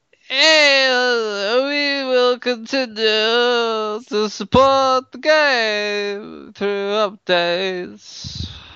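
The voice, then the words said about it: Drunk golfer character voice. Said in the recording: “Accent, please. ... a golf game, freak, but he's really, really drunk.”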